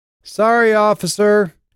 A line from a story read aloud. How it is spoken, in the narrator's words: she called out